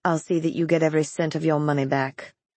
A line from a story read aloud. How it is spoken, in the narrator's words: she said in a toneless voice